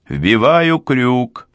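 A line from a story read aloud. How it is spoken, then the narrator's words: Shouting. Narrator (Russian): прокричал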